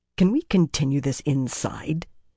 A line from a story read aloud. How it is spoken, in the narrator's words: Birgitta put in irritably